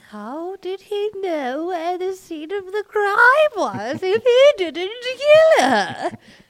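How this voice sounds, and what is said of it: British-accented witch character voice. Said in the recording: “That's a very good impression ... I love your new character, Deduction Witch. British Deduction Witch.”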